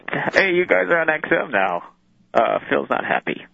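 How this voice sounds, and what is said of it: Imitates another person's voice. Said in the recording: “should be doing this impression back here because he's much better at it ... this is a terrible impression”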